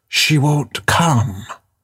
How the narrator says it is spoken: whisper

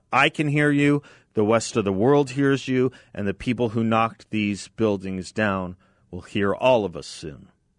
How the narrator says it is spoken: he shouted

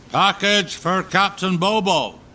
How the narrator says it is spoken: From the pier, a voice called out

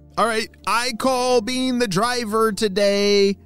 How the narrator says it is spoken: shouted Neil

